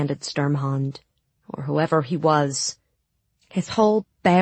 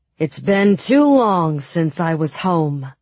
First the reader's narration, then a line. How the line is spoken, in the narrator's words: boomed the privateer